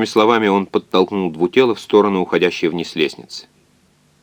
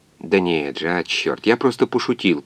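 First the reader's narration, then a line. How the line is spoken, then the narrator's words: Muttered. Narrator (Russian): пробормотал доктор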